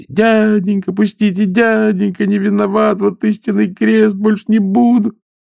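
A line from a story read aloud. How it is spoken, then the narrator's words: Fawning whining plea. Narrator (Russian): мелким бесом, заныть, заскулить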